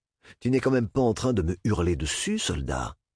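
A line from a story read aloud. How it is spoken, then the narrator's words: Perfectly even voice. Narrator (French): lui demanda Dap d'une voix parfaitement égale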